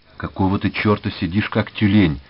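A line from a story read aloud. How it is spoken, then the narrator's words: Quick whisper in ear. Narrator (Russian): быстро зашептал Чиж на ухо Мечику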